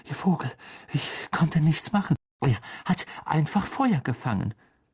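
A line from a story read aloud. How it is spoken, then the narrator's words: Panting. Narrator (German): keuchte Harry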